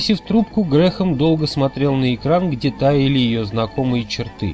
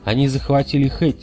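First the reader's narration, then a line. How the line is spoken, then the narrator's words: Plain. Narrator (Russian): сказал он Волю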